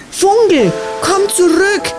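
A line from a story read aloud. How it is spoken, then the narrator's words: Calling after someone. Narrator (German): rief Jola hinter ihm her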